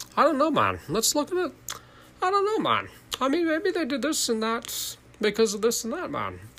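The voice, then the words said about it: Imitates another person's voice. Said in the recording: “It's a terrible impression. I'm doing an impression of the Tim Dillon one”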